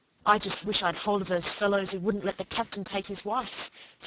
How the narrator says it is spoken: said Peter savagely

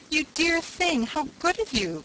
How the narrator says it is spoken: cried the angel

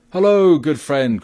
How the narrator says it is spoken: cried Robin

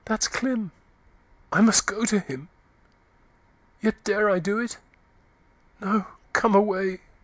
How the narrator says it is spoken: Eustacia gasped faintly

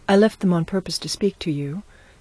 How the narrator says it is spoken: she answered

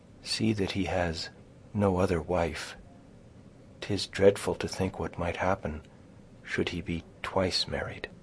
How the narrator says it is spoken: she continued, dropping her voice to a whisper

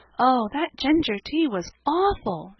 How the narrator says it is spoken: exclaimed poor Cecily

